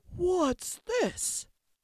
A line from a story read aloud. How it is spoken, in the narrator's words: growled the father bear in his great big voice